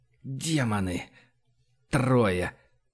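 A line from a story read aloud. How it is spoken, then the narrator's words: Muttered. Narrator (Russian): пробормотал Фома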